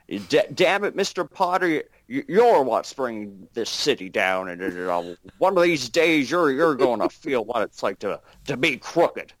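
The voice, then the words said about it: Jimmy Stewart impression. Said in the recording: “I can sort of do a Jimmy Stewart”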